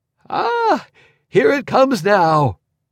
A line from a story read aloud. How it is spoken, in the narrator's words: he exclaimed, delightedly